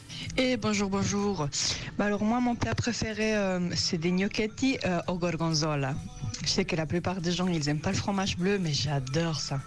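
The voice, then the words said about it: Italian accent. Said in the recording (French): “elle a un accent incroyable ... avec l'accent italien”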